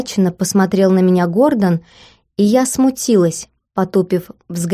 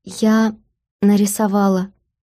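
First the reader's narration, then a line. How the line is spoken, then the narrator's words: Barely audible. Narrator (Russian): еле слышно вымолвила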